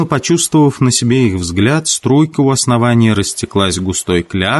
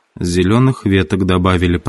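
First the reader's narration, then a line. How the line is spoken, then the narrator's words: Muttering. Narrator (Russian): пробормотал Ральф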